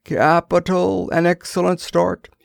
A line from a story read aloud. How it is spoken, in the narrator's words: he cried suddenly